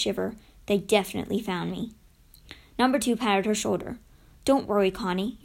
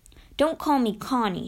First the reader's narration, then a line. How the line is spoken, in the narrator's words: she said crossly